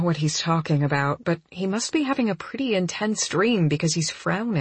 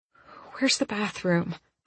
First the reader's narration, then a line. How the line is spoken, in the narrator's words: I ask, keeping my voice soft